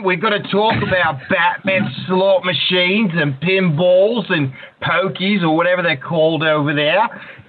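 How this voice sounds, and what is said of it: Australian accent, convincingly done. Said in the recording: “you've mastered the Australian accent”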